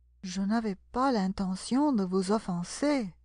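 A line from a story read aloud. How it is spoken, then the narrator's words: Conciliatory. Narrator (French): dit Alice d'une voix conciliante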